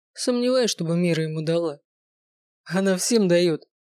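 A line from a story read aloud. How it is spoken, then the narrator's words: Chuckling voice. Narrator (Russian): хохотнул другой голос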